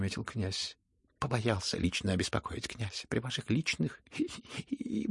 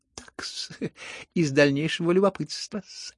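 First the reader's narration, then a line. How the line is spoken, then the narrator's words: Sudden giggle. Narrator (Russian): хихикнул вдруг Лебедев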